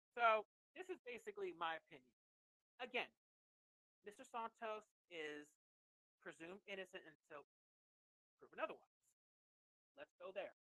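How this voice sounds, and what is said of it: Loud, almost yelling voice. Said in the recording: “I'm sorry if I'm yelling at people ... I'm a little loud”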